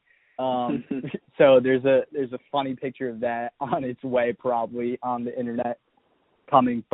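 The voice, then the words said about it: Sick, congested, low-energy voice. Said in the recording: “My voice sounds pretty down today ... I'm working through a cold / sickness”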